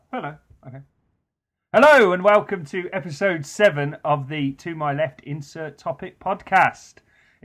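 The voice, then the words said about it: Radio DJ voice. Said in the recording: “I'm now using my new DJ voice. It sounds a bit weird”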